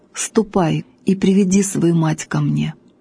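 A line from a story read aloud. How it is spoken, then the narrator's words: Sad commander. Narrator (Russian): полководец печально говорит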